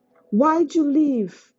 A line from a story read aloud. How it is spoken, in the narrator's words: shouted